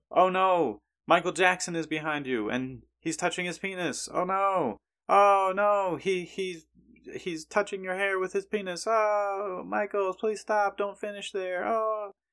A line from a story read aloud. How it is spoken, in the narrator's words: randomly shout out